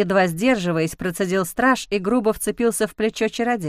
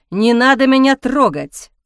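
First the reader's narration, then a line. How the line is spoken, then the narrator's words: Furious bark. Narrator (Russian): рявкнул Ник, окончательно выйдя из себя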